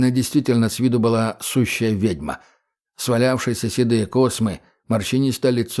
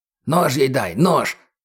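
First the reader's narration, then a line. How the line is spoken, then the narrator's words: Hissing. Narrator (Russian): прошипел Гоша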